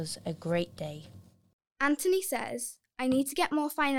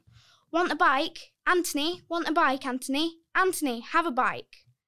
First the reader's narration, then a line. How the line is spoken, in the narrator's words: they all started shouting